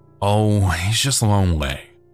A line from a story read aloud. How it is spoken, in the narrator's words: said with a sigh